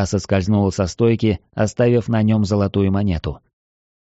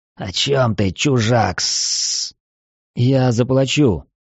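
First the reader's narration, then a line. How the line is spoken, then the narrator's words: Hissed reply. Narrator (Russian): Змеит прошипев в ответ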